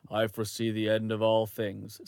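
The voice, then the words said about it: Deep-voiced female character voice. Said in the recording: “She's got a deep voice. ... that was my lady. I'm not very good at playing.”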